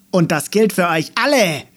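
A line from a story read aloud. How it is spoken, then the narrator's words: Very loud echoing shout. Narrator (German): rief Meckermähne, so laut, dass seine Stimme von den Bäumen zurückgeworfen wurde und ein Echo gab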